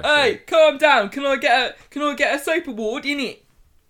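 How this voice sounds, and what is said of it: Imitates another person's voice. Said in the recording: “doing his Danny Dyer impression”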